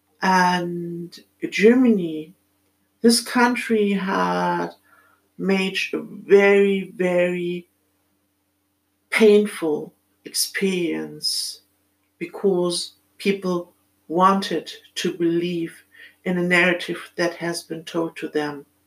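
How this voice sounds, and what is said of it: German accent. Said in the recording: “as you might have heard from my accent, I'm born in Germany”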